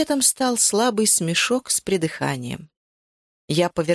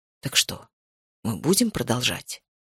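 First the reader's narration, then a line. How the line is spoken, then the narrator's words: Whisper. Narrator (Russian): прошептал Макс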